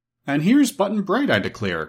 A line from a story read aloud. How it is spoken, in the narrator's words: cried Santa Claus